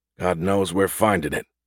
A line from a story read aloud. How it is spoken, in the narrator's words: Gus muttered